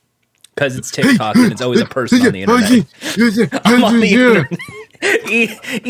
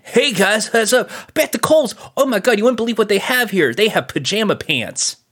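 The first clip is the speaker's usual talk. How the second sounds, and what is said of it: Impression of a TikTok influencer voice. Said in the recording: “a TikTok influencer going ... your impression still exactly the same as like it always has been of like the person who's on the internet”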